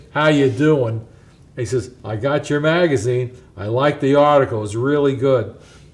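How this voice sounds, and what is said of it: Good John Wayne impression. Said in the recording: “You do a good impression there. ... John Wayne”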